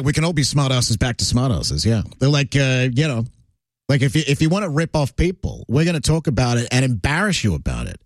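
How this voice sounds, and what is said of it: Mixed Australian and North American accent. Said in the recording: “I love your accent, buddy ... it's more think of transatlantic. No, it's definitely Australia, but it's mixed with North American as well. It's like a 50-50.”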